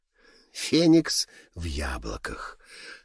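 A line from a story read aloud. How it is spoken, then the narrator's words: Theatrical tragic whisper. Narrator (Russian): повторил Льюис трагическим шепотом, достойным сцены глобуса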